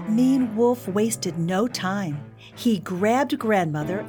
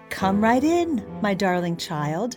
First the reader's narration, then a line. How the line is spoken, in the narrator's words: said Grandmother